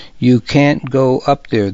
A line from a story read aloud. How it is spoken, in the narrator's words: the boy said